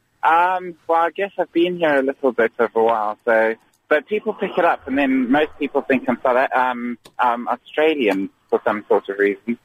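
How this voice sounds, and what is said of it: Posh-sounding accent. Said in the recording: “You sound like a very posh gentleman to me... You sound like a posh man.”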